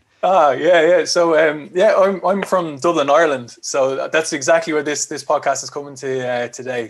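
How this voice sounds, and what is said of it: Irish accent. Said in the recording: “I love how you guys say that... you got one of my favorite accents in the world”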